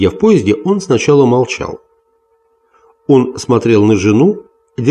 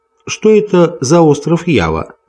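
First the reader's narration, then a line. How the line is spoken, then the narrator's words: Plain. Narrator (Russian): спросила она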